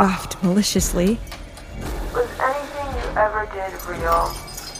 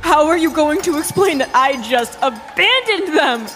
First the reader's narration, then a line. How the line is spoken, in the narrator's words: I screamed at the top of my lungs